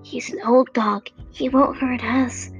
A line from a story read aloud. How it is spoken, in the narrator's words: in surprise and whispered